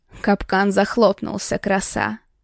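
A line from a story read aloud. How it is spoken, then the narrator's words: Satisfied growl. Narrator (Russian): Довольно прорычал Архаров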